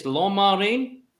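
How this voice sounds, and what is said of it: Mock French pronunciation. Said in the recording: “I was doing my best French impression there for you lads”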